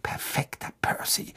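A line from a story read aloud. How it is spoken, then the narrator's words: Murmured. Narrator (German): murmelte Fred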